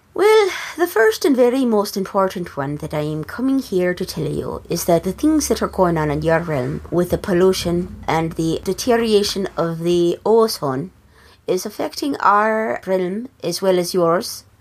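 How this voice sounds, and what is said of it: Irish accent. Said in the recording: “So that's why I have an Irish accent”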